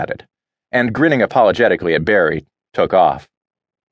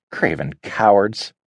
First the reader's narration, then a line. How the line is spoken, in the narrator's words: she muttered